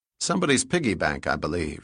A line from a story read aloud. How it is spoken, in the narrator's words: he said